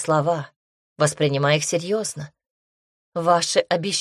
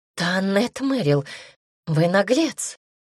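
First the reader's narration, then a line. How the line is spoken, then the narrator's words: Breathless female exhale. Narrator (Russian): выдохнула она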